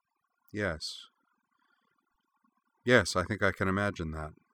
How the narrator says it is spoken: said quietly

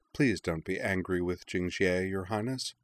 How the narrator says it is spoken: said Queen Xian gently

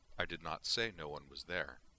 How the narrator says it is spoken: Savick replied calmly

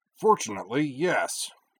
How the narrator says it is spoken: Corwin grunted

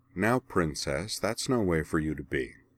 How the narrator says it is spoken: said Kaiten smoothly

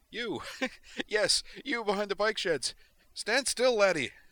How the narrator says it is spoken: Actually giggling now, Griffin said

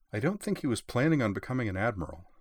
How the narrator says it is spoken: said Shimakaze

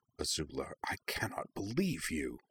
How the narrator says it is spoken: Zuko regarded the scene with something very like horror … murmured

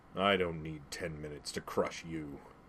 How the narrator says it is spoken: Zod snarled

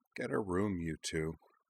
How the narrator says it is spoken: Anthi Tenjo mumbled from the far side of Ujna

